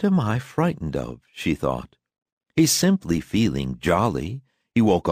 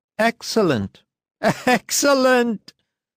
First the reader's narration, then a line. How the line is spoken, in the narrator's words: said Lusian, and suddenly choked with laughter